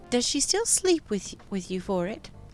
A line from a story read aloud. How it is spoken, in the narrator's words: Anna asked, her tone innocent and plain